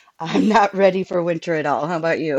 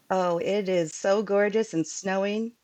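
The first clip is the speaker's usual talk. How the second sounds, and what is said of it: Sarcastic tone. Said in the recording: “that was sarcasm.”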